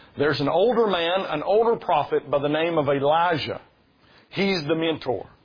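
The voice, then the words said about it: Kentucky accent. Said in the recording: “the whole Kentucky thing ... Elijah and Elisha sound exactly the same in my accent”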